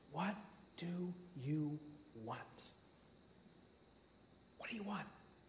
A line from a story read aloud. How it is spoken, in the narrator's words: he tenderly asks him the question